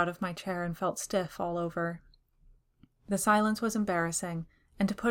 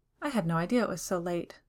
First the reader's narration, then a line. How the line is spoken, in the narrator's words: in an airy tone